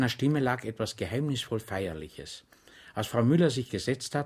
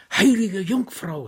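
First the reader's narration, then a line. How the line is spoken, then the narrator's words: Crying out. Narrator (German): schrie Frau Müller auf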